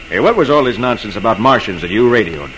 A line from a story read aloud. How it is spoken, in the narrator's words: He demands gruffly